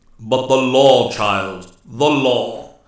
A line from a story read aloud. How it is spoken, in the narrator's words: cried Ak sternly